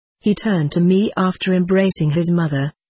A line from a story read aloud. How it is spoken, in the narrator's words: said the magician